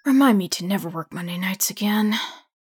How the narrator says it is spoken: Steve mutters to himself

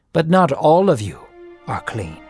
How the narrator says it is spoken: he said

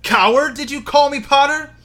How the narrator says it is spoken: shouted Snape

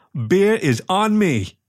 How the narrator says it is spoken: he shouted

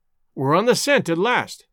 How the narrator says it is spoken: cried excitedly

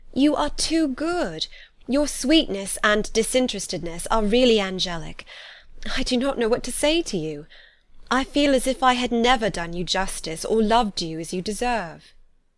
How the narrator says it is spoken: exclaimed Elizabeth

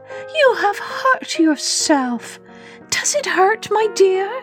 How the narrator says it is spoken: she cried

